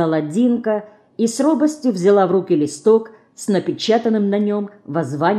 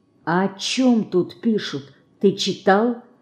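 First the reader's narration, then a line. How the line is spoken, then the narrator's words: Whispered question. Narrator (Russian): шепотом спросила она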